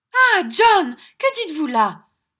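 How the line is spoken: Shouted. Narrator (French): cria Madame Brodie

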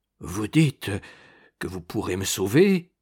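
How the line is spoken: Low stammer. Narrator (French): balbutia-t-il à voix basse

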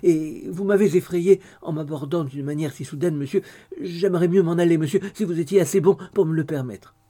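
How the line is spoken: Stammering. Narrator (French): balbutia Dolly

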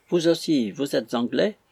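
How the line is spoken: Surprised. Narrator (French): dit-elle d'un ton de surprise

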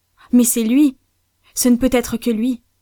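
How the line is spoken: Exclamation. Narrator (French): s'écria-t-il

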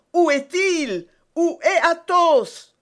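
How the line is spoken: Exclaiming. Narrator (French): s'écria D'Artagnan

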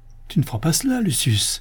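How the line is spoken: Terrified cry. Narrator (French): s'écria Styrax au comble de la terreur

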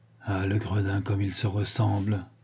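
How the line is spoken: Naive murmur. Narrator (French): murmura Ganimard naïvement

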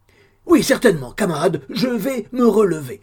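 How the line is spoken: Soothing shout. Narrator (French): cria Dennis, prompt à l'apaiser

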